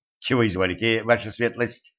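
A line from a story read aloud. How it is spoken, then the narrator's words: Plain. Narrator (Russian): спросил Курт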